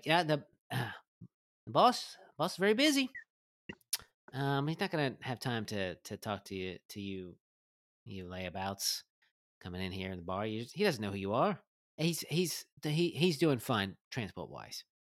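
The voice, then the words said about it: Inconsistent, wavering put-on accent. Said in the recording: “her accent is all over the place”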